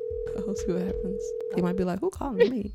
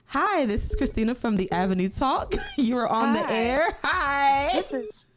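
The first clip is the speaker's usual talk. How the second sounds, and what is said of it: Polite customer service voice. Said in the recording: “I'm gonna do my customer service voice.”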